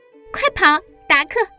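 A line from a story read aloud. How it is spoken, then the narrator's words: Laughing. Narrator (Chinese): 小马的主人笑着说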